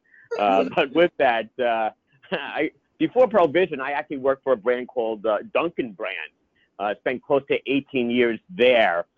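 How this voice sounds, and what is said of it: New York accent. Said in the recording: “I have that funny New York accent. So hopefully you could understand what I'm saying.”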